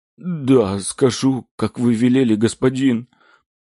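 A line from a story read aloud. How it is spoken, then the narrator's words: Frightened man whimpering. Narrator (Russian): хныкал мужчина, боясь даже шелохнуться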